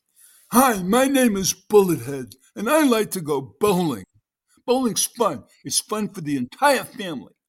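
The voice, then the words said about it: Funny character voice, slight New York accent. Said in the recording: “I'm going to read this character in a funny voice ... I gave him a little New York accent”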